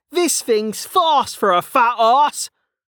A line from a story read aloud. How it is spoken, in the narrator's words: Kettle shouted as he chased after it through the mud